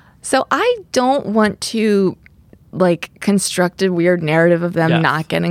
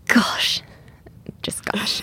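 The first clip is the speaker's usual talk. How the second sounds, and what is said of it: Nervous breathy voice saying gosh. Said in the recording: “my full impression of Kate ... like kind of a nervous breath in and saying, gosh”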